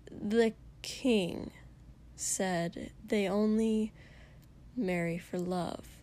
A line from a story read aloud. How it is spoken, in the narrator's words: Shoto sighed